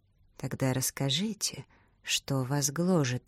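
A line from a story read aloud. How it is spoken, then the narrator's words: Quiet request. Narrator (Russian): негромко попросил мистер Рэфил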